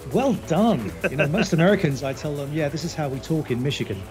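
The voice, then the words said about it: Non-American accent. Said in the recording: “that accent's definitely not American”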